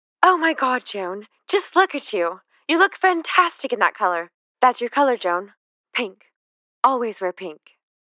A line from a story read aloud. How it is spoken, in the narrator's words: When Jackie saw her, she exclaimed